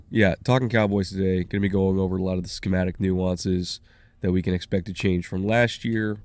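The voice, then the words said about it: Slightly sick, strained voice. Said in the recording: “I definitely had a fever... you can still hear it in my voice... A little bit... It's a lot better than it was.”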